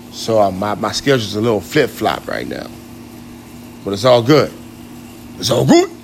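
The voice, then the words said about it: Poor imitation of a rapper's voice. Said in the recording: “my DMX worst impersonation.”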